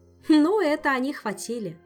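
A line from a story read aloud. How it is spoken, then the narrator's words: Laughing. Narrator (Russian): засмеялась Ольга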